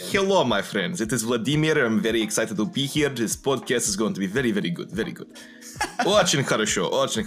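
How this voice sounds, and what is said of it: Put-on Russian accent. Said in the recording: “do your Russian voice impression. It's pretty good. ... High quality, dude. High quality.”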